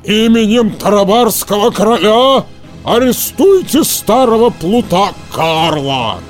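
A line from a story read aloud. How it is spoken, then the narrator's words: Roaring. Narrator (Russian): голос Карабаса-Барабаса проревел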